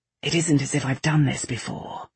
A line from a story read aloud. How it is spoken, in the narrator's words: he muttered